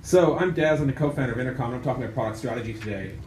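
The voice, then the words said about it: Irish accent. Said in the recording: “The strange accent you're hearing is I'm from Ireland”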